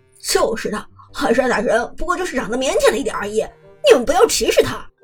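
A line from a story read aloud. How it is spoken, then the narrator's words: Laughing. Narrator (Chinese): 张哲伦也笑着说道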